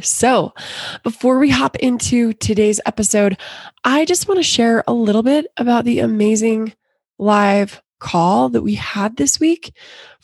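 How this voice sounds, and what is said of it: Slightly hoarse, worn voice. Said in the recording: “My voice is a little shot this week”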